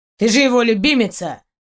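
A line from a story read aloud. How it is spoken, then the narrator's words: Suddenly angry declaration. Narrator (Russian): Заявил Гарольд неожиданно зло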